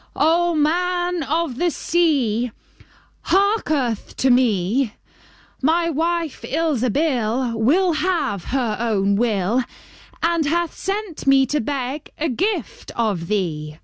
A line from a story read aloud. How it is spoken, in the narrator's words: he cried out